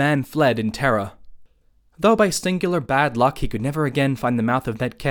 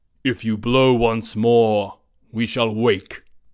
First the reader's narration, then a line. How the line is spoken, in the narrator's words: One of the giants rubbed his eyes and said in a voice that rumbled through the cave